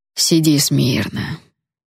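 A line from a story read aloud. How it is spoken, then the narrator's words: Gentle request. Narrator (Russian): ласково попросил он служанку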